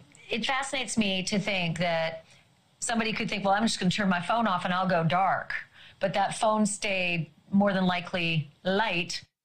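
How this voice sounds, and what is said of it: Texas-sounding accent. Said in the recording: “she sounds like she's from Texas, but she's from Canada”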